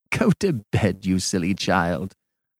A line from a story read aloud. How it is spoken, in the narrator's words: laughed Mrs